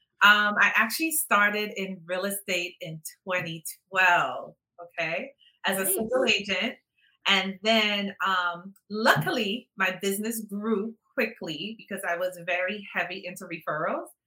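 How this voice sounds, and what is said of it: Trinidadian accent. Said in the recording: “I am originally from Trinidad. So when you hear the accent, that's where I'm from, originally from Trinidad.”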